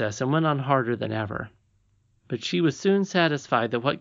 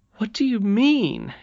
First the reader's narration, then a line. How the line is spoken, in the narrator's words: exclaimed Curdy